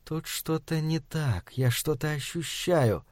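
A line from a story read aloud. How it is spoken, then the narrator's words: Female demon whisper. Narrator (Russian): Демоница прошептала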